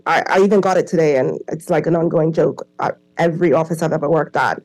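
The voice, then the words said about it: Accent that sounds American. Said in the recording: “everyone here thinks I'm American ... To them, my accent is American. I just sound like an American ... Oh, are you Canadian?”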